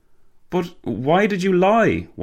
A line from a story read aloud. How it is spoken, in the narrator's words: Walter gasped